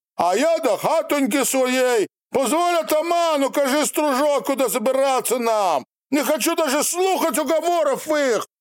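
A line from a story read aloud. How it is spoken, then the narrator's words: Wild peasant shouting. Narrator (Russian): Другой, с рябым, как перепеленное яйцо, лицом мужик, шало оглядевшись, прокричал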